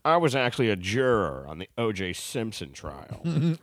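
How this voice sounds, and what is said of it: Bad Howard Stern impression. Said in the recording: “having fun saying stuff as Howard Stern ... a bad accent”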